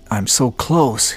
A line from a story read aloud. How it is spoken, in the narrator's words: gasped into his oxygen mask